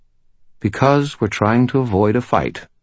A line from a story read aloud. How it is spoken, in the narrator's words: Lucio said calmly